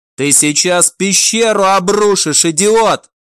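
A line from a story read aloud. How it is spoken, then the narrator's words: Shouted. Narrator (Russian): выкрикнул Билл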